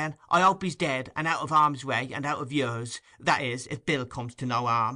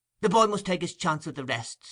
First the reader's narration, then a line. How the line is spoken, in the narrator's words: interrupted Nancy, hastily